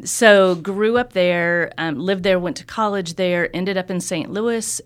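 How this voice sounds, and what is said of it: Slight Southwest Missouri accent, longer vowels. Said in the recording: “grew up in Southwest Missouri. Yeah. You can hear a little bit of that in the accent. ... The vowels just are a little longer. ... Just a little bit.”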